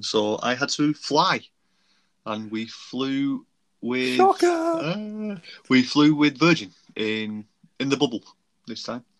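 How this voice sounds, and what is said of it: Northern English Bolton accent. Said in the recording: “if you could probably tell from my accent, I'm not from the US uh, from uh, sunny old Bolton.”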